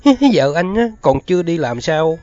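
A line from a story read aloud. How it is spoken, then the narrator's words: Snapped. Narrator (Vietnamese): Mụ nạt liền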